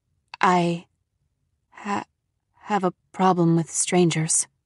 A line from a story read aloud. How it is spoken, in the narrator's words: she stammered